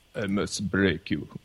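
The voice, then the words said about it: Ivan Drago movie-character impression. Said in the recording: “this Ivan Drago impersonation ... That was pretty damn good.”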